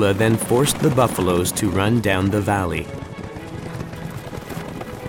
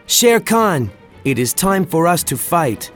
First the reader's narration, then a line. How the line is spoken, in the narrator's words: He shouted out